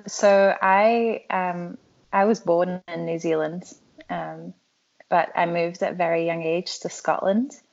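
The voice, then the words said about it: Scottish-influenced non-American accent. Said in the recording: “you don't sound like you're from the South ... a pretty Scottish accent, depending on who I was around ... that's, I guess, why I sound different ... it has changed a lot”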